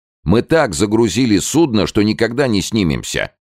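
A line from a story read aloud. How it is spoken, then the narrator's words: Almost shouting. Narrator (Russian): чуть не кричал Шарипов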